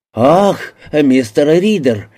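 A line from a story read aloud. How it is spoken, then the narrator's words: Hearty exclamation. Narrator (Russian): воскликнул с почти искренней сердечностью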